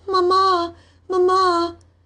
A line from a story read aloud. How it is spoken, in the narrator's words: once she woke up suddenly and called out